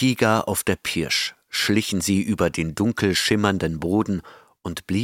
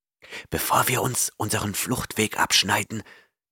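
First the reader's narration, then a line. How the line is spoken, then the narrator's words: Hissing. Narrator (German): zischte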